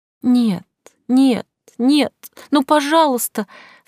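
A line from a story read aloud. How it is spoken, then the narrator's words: Sobbing. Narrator (Russian): всхлипывала я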